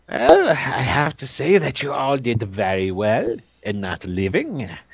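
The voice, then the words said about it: Slips into a French accent. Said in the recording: “I'm slipping into a fucking French accent here”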